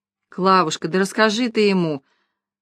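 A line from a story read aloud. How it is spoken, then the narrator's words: Tipsy sigh. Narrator (Russian): вздохнул уже захмелевший Степан Иванович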